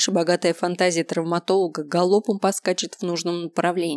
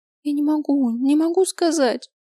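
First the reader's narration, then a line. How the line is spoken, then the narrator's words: Sobbing. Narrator (Russian): снова всхлипнула Ая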